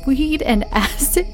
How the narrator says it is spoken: He laughed

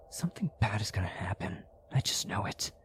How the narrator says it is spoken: so uneasy that I whispered to myself

